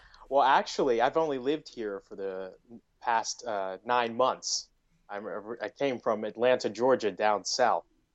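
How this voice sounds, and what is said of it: American accent. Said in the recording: “How sexy is that accent? ... That good old indie accent.”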